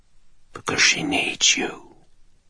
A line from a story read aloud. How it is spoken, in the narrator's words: the jewel whispered